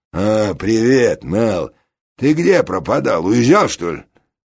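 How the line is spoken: Friendly deep voice. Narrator (Russian): один из игроков, не сюртучник, а клетчатый, дружелюбно пробасил

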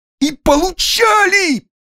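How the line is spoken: Very loud shout. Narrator (Russian): выкрикнул Дож, да так громко

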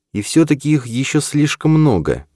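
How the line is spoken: Sad statement. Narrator (Russian): грустно констатировала Эрин

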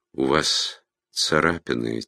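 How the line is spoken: Soft. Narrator (Russian): тихо сказала Игла

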